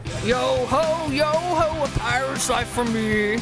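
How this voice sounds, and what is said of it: Pirate character voice. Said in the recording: “give us your best pirate impression”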